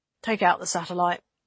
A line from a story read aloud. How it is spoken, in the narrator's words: she decided at last, quietly